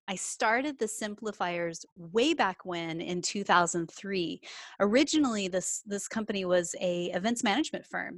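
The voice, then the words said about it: Texan American accent. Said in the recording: “as you can tell from my accent, I'm from Texas originally”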